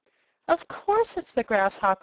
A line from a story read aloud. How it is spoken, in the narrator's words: exclaimed Belina